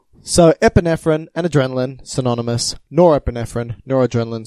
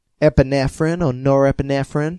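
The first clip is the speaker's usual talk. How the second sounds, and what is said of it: Attempted American accent, sounds Canadian. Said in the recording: “is that a good American accent? ... Sounds more Canadian.”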